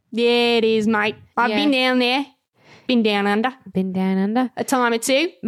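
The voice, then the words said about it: Good put-on Australian accent. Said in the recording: “That was an Australian accent... Your Australian is very good.”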